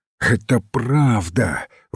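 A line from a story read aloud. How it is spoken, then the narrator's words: Breathed out. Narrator (Russian): выдохнул он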